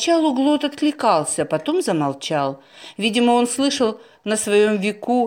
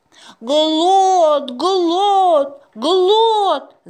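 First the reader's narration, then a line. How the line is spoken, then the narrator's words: Friends chanting at full volume. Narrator (Russian): заорали друзья, что есть силы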